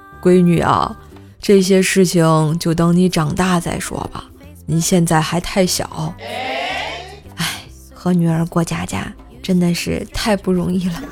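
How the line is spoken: Long sigh. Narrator (Chinese): 我长叹了口气说

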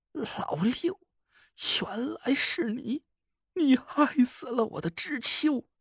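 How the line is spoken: Weeping ghost, through gritted teeth. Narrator (Chinese): 曹星辰的阴魂哭个不停，他咬牙切齿道

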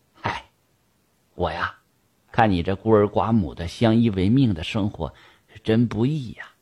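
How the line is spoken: Long sigh. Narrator (Chinese): 盛掌柜长叹了一声

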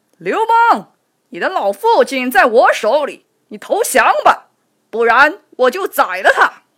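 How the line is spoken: Shouting. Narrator (Chinese): 项羽喊道

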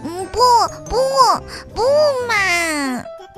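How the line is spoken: Crying. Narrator (Chinese): 鸡蛋妹妹哭了起来

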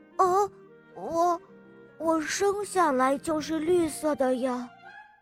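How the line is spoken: Embarrassed low voice. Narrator (Chinese): 哈瓦尔不好意思地低声说

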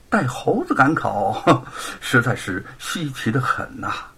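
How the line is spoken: Laughing. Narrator (Chinese): 沈坤笑着说

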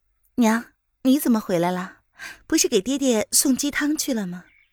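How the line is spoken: Soft question. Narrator (Chinese): 娄雨嫣柔声的问

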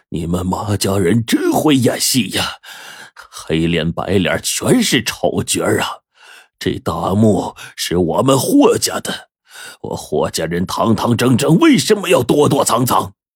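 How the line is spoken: Panting, mocking. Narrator (Chinese): 他喘着气嘲讽道

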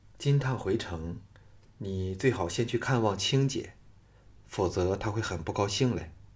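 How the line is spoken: Soft, gentle. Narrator (Chinese): 季嫣然柔声说

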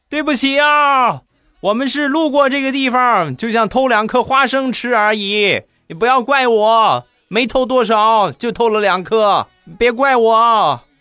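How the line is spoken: Shouting while fleeing. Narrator (Chinese): 这两个人……一边跑一边喊

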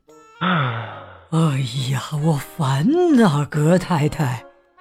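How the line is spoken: Sighing. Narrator (Chinese): 格尔林先生叹了口气

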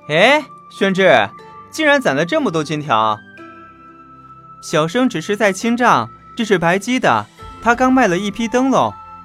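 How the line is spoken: Laughing. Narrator (Chinese): 韦燕看见袁耀在收金条，一展折扇，笑了

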